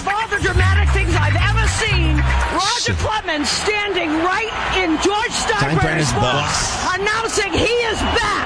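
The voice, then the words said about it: Strong Boston accent. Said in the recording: “That's like the most Boston accent I've ever seen.”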